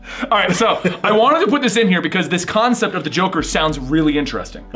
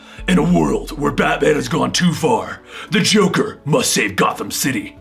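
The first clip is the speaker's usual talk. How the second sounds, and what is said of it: Imitates Batman's voice. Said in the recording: “I'm gonna read the solicit in my Batman voice ... In your Batman voice ... In my Batman voice.”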